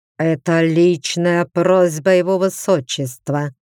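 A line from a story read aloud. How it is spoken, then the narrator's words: Through gritted teeth. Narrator (Russian): процедил сквозь зубы Лэр Ширан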